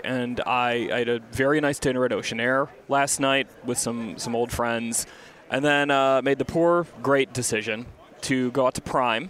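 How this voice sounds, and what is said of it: Slightly hoarse voice. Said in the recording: “my voice sounds a little bit hoarse ... my voice is a little bit shot”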